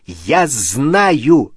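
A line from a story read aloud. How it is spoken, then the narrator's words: Barked. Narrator (Russian): рявкнул Гарри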